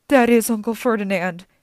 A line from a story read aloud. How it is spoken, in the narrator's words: Grover gasped